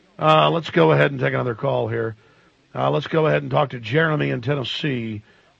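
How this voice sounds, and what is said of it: Voice sounding a bit off. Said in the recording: “Got a bit of a cold ... That's why I sound a bit different.”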